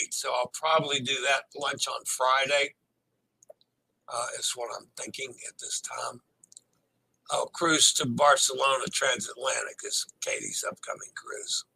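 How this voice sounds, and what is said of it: Slightly hoarse voice. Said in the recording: “my voice is getting a little hoarse.”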